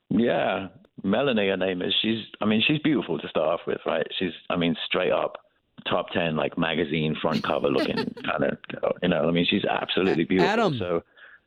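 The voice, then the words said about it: London English accent. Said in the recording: “where's that accent from? Like, it's nice. ... London, England. ... that must be Australian”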